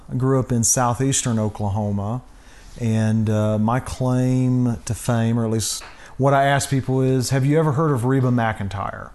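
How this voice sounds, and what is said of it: Oklahoma accent. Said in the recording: “from your accent, we can tell you are not originally from Colorado ... Originally from Oklahoma”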